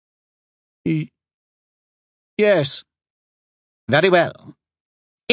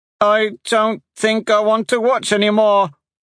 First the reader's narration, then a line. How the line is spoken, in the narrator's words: Tate called out